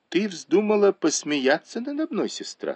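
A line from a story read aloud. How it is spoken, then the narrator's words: Plain. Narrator (Russian): сказал он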